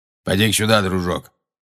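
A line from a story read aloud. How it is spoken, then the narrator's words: Grumbling. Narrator (Russian): проворчал Грюм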